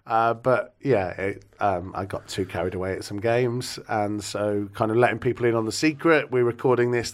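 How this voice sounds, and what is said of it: Hoarse voice. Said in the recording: “I'm still very hoarse with my voice. ... I've been shouting too much at football matches.”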